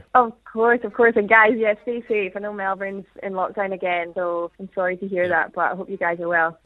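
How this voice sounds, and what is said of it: Scottish accent. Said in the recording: “from Scotland, of course. It's a better accent. It's beautiful accent.”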